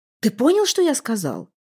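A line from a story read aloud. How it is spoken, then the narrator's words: Irritated exclamation. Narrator (Russian): раздраженно воскликнул Эндель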